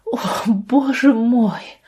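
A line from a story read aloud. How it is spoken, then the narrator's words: Groaning. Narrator (Russian): простонала Лия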